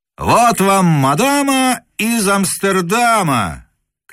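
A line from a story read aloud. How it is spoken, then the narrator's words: Joking shout. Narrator (Russian): крикнул другой шутник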